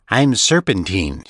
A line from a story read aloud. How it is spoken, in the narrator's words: she said